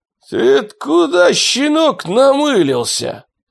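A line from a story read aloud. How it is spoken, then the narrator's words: Hoarse rasp, rustic cyclops. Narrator (Russian): прохрипел сельский циклоп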